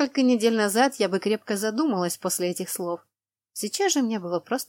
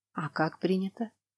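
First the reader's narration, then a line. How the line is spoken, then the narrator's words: Calm question. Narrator (Russian): спокойно спросила я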